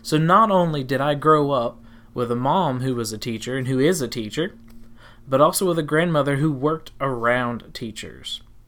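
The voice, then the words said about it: Tennessee Southern American accent. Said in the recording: “we left South Carolina and moved to Tennessee, which you can probably hear in my accent.”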